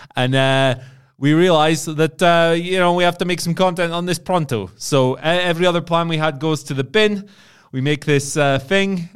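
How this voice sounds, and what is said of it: Italian-American accent cadence. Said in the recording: “I'm still speaking in the cadence of the Italian-American accent I was doing earlier.”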